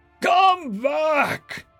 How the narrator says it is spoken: Ahog bellowed, trying to salvage the chaos

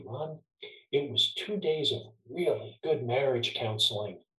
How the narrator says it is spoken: he said quietly

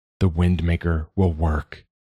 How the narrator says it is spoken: he said instead

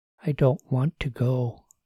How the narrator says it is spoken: she said quietly

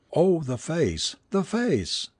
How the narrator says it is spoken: She only repeated hysterically again and again

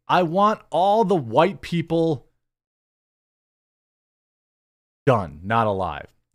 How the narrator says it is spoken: Hutchinson allegedly yelled at law enforcement

